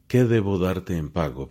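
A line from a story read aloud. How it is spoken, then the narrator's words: Plain. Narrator (Spanish): preguntó Labán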